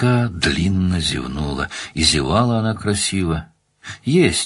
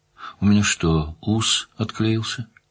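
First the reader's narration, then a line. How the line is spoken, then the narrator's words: Drowsy question. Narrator (Russian): Оксана столь же дремотным тоном поинтересовалась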